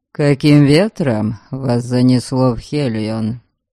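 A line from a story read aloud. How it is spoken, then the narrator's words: Dry inquiry. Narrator (Russian): Сухо поинтересовался он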